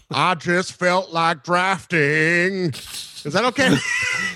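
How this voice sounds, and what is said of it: Forrest Gump voice impression. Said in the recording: “Can you do a Forrest Gump voice ... I thought that was a Jerry Jones voice”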